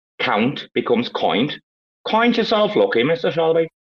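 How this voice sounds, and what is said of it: Put-on Northern Irish accent. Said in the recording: “Northern Irish accents ... you've only got to say like, ow, like oi”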